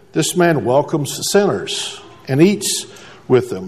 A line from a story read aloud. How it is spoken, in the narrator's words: the Pharisees and teachers of the law muttered